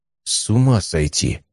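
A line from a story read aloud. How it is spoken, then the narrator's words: Muttered. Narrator (Russian): пробормотал Стас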